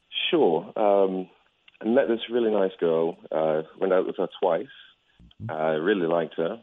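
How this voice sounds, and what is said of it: Slight British accent. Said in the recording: “It sounds like a slight British accent there.”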